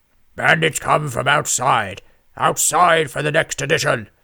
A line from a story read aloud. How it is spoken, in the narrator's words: a voice boomed from a complicated network of copper piping hanging from the ceiling